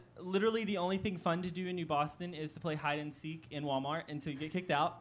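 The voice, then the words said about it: Northeast Texas accent. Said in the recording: “I don't know if you can tell by my accent, but I am from a really small town called New Boston. It's in Northeast Texas.”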